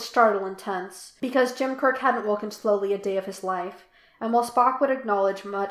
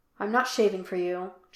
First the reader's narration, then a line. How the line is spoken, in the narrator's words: Jim said